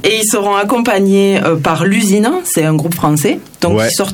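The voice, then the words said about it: Southern French Toulouse accent. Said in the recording (French): “Il se moque, je sais pas, de mon accent. On est à Toulouse, hein, pour les Parisiens qui nous écoutent. Vous avez entendu.”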